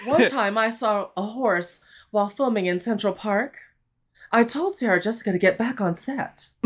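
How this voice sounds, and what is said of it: Kim Cattrall impression. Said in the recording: “I can do a good Kim Cattrall.”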